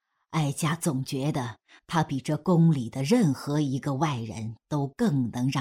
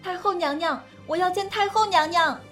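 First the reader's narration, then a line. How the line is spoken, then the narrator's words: Anxious shouting outside. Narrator (Chinese): 门外响起了焦青柳焦躁的呐喊声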